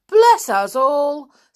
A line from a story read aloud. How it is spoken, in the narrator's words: said in a startled voice